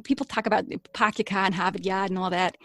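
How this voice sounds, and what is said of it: Put-on Boston accent. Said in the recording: “So the next one down from Maine is Boston ... I've never been to Boston, so it's hard to say if that's really how they talk, but that's what I've heard ... Yeah, that's how they talk.”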